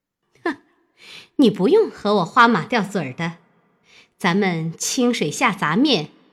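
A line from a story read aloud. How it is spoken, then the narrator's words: Cold sneer. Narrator (Chinese): 三姐儿冷笑道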